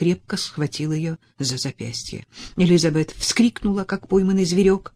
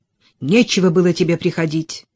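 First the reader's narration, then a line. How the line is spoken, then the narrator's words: Angry. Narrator (Russian): сердито сказала Элизабет Элиоту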